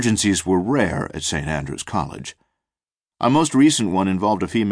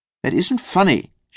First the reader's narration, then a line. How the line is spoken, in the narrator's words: said, her voice rising